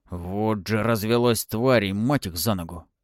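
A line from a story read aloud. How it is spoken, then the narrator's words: Hissed. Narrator (Russian): прошипел Захарыч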